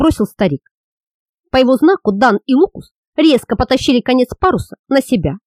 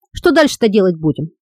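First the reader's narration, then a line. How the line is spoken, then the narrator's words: Plain. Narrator (Russian): спросил Хейграст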